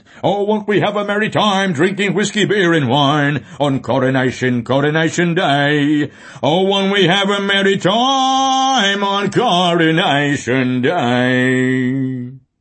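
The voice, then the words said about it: Off-key singing in Cockney accent. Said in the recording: “singing out of tune with a Cockney accent.”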